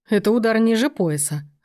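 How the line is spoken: Laughing. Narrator (Russian): рассмеялся Сергей

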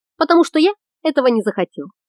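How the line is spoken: Calm. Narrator (Russian): спокойно объяснил Глиганд

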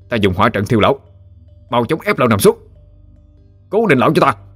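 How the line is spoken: Loud shout. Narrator (Vietnamese): ba đệ tử Lâm gia quát lớn

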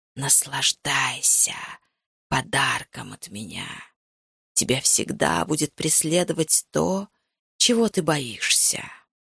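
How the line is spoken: Fading farewell whisper. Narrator (Russian): его прощальный угасающий шепот

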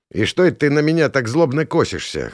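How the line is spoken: Smirking grunt. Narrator (Russian): хмыкнул я

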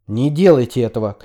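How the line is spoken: Shouted. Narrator (Russian): крикнул Марк

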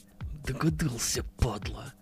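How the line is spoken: Hateful hiss. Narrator (Russian): с ненавистью прошипел Акимов

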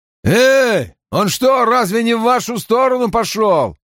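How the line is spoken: Shouting. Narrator (Russian): крикнув

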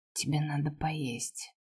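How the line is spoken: Overly hoarse voice. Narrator (Russian): произнес излишне хриплым голосом

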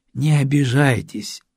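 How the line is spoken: Soft. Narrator (Russian): мягко произнес гость

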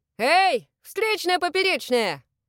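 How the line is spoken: Cheerful shout. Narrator (Russian): весело крикнул всадник

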